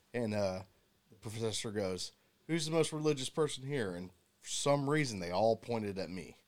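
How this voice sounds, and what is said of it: Southern US accent. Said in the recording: “you got a southern accent”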